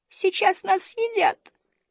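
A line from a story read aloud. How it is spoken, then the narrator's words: Squeaky little girl. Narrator (Russian): пропищала малышка Мю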